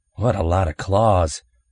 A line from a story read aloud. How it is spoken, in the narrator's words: Scott murmured